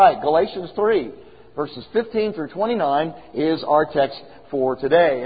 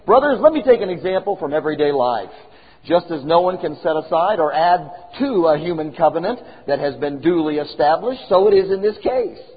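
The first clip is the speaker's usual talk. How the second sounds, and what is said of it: Reads aloud very fast. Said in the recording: “I'm going to read it fast.”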